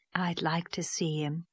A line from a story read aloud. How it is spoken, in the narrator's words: said Miss Lavendar softly, as if talking to herself